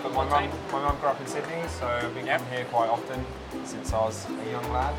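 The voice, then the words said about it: English accent. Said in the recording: “you've got an English accent”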